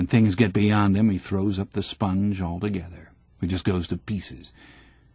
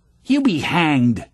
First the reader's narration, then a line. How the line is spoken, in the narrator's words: spat out Ginger